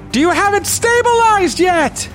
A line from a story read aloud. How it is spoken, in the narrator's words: she yells down